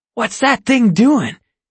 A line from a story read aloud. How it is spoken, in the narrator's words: wheezes